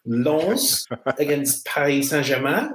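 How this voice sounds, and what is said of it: Put-on French accent. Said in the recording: “What do you make of my French accent? ... Loving the French accent”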